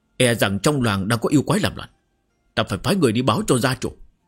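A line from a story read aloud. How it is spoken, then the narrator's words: Relieved, loud. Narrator (Vietnamese): Trần Nhị Ngưu nhẹ nhõm hơn nhiều trả lời lớn tiếng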